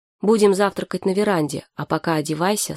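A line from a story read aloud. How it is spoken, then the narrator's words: Plain. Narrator (Russian): сказала Саша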